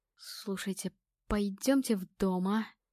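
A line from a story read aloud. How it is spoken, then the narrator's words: Creaky stammering fearful voice. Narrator (Russian): Скрипучим, заикающимся от страха голосом произнес Никита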